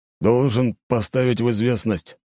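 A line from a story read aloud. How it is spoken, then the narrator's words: Gloomy captain continuing. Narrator (Russian): мрачно продолжил капитан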